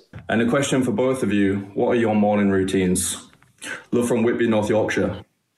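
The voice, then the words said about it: Yorkshire accent. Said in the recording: “I knew I heard a Yorkshire accent there.”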